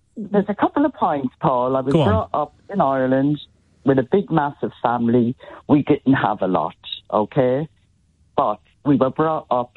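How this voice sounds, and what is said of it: Irish accent. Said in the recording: “You sound Welsh ... I'm Irish. ... I'm Irish.”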